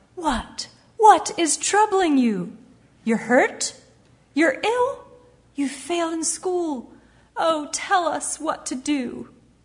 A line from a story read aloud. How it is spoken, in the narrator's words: his mother cried